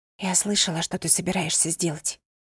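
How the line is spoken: Whisper. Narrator (Russian): прошептала

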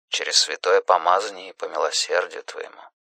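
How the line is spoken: Priest murmuring. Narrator (Russian): бормотал священник

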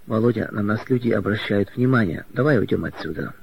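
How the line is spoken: Whispered. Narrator (Russian): Она прошептала

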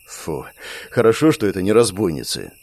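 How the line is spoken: Relieved exhale. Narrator (Russian): выдохнул Андрей

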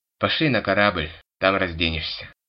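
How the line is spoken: Wry snort. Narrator (Russian): хмыкнул его товарищ

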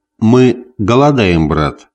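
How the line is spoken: Plain. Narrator (Russian): сказал Гриф

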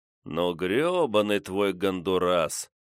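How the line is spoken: Disappointed drawl. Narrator (Russian): разочарованно протянул я

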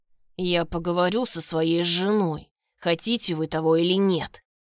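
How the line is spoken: Growled through teeth. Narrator (Russian): Рычит сквозь зубы Даня

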